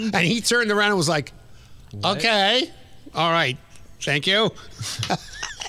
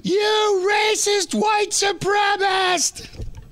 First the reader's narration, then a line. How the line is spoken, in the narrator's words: some white girl in some kind of leather outfit from the back yelled